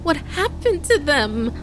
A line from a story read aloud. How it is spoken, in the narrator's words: Caden stammered through her tears